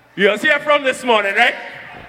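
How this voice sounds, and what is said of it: Trinidadian accent. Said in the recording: “let me switch back to my Trini accent real quick”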